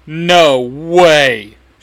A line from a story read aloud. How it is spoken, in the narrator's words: She shouts again